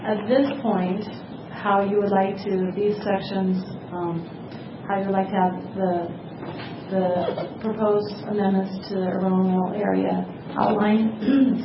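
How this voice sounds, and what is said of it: Hoarse, strained voice. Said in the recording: “Sorry, I'm losing my voice.”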